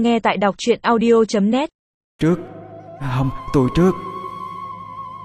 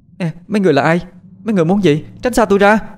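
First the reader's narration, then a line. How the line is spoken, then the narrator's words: Panicked loud yell. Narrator (Vietnamese): Nó quảng lên hét lớn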